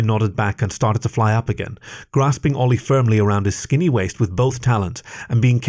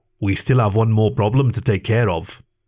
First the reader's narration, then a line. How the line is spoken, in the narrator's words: rumbled